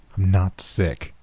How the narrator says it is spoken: I told him, my voice more level than it had ever been

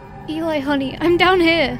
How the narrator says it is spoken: I shouted

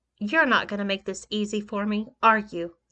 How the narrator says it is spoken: I asked

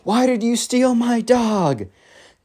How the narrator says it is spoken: yells, like

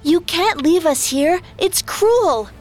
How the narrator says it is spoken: Sora called out

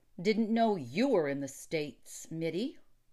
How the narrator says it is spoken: grumbled Remington

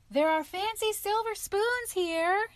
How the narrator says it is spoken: cried

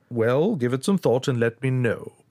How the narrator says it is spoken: the solicitor said

